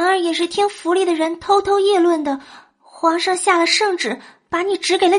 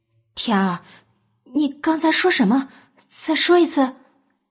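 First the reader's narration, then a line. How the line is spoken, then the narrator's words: Breathless uncertain question. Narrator (Chinese): 等他好不容易喘过气来，他不确定的问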